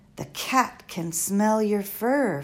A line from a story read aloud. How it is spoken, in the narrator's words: Flora shouted as she ran